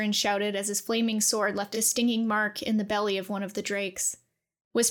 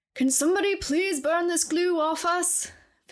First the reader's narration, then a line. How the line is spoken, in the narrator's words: Philip shouted, desperately